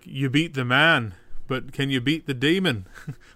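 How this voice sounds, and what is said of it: Good put-on Irish accent. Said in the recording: “That's a very good Irish accent.”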